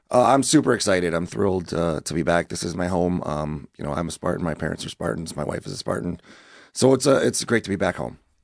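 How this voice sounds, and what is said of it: Hoarse, strained voice. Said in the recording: “battling the laryngitis”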